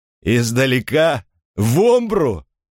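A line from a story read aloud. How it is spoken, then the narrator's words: Laughing soldiers. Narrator (Russian): солдаты расхохотались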